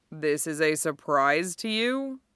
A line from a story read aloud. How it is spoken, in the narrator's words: He asked dryly